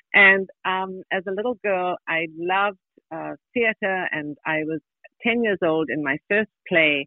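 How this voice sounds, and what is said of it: South African accent. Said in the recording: “I'm sure you can tell from my accent that I'm from the South. The very, very deep South, South Africa.”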